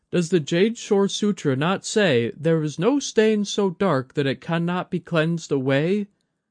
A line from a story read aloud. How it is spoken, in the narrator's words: She faltered over the last words, holding back an emotional swell